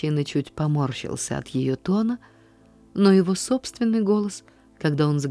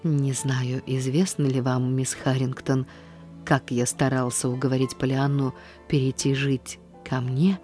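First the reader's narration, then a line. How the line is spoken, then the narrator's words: Very soft, composed. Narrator (Russian): как только он сумел овладеть своим голосом, спросить очень мягко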